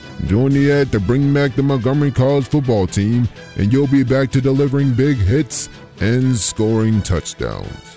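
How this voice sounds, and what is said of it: NFL Films narrator impression. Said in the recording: “Mr. NFL Films impersonator”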